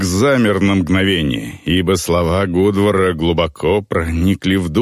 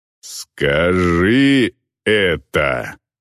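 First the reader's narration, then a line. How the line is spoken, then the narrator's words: Growl. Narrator (Russian): прорычал Вирк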